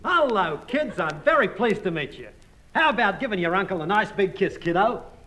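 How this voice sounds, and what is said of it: Australian accent. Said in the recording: “Did you hear that accent? He's a foreigner. ... I'm Australian.”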